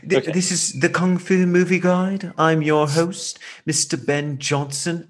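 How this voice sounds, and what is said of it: Imitates another person's English accent. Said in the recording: “So English accents. ... I love his accent. Oh, I think that was a decent impression ... it was very good. ... my British accent sucks”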